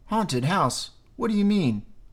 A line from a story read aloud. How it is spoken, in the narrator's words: I asked